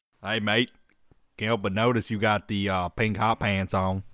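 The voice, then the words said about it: Poor put-on Australian accent. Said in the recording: “That went from somewhere in Australia to Forrest Gump. ... It was real bad. ... I just got the hey mate part right. Which is like everybody who does Australian accent.”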